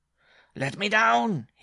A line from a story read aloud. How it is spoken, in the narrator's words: cried again